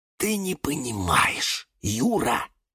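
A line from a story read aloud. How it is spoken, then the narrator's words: Tense whisper, cactus. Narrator (Russian): произнес напряженным шепотом кактус Кирилл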